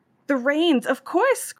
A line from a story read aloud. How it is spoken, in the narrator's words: cried a farmer